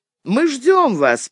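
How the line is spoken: Bandit, almost cheerful. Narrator (Russian): почти весело сказал бандит

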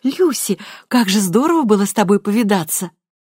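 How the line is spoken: Exclamation. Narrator (Russian): воскликнула

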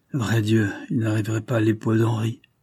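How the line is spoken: Murmur. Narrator (French): murmura M

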